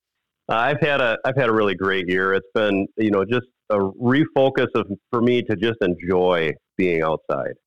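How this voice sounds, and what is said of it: Slightly raspy voice. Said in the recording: “Your voice sounds a little bit better than when I talked to you last week ... I've been a little raspy, recovering from having been sick here the past week”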